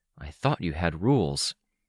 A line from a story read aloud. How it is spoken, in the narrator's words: murmured